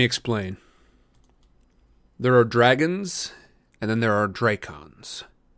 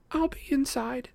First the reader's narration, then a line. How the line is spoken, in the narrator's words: Rachel said in a small voice